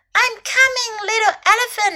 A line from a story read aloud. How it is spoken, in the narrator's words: the snake cried